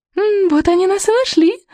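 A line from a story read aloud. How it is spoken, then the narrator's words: Excited squeak. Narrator (Russian): возбужденно пискнула Буремуха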